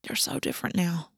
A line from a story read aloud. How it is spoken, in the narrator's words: Ash murmured